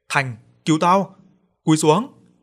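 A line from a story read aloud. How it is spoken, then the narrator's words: Startled shout. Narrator (Vietnamese): Nguyên giật mình lùi lại hét lên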